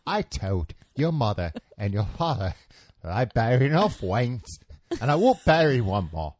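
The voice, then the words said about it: Michael Caine impression. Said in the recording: “Can I do Michael Caine?”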